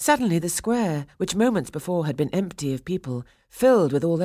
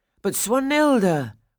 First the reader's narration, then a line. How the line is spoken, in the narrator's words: Franz cried